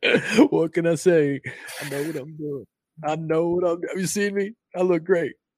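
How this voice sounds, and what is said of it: Imitates another person's voice. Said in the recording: “that's my Bill Clinton, my best Bill Clinton impersonation.”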